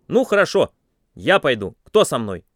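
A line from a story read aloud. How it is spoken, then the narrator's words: Loud speech. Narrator (Russian): я громко сказал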